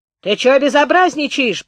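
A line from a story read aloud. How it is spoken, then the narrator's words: Maid shouting through crack. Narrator (Russian): прокричала в щелку горничная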